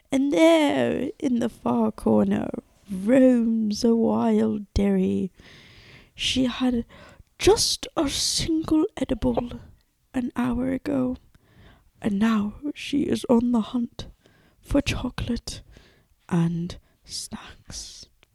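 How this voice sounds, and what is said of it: Imitates a nature documentary narrator. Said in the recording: “my best David Attenborough impression ... David Attenborough is the narrator for all like the planet Earth shit. That's who I was trying to embody.”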